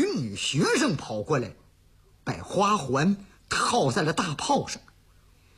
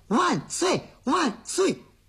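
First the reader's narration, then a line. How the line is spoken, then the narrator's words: Child shouting continuously. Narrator (Chinese): 这小家伙小嘴的还不住喊呢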